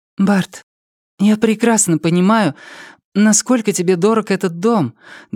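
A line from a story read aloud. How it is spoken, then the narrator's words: Trembling voice. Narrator (Russian): дрогнувшим голосом сказала она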